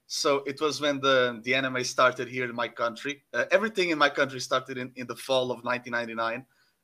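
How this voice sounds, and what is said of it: Portuguese accent. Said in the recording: “Portugal, by the way, if you if you get the accent”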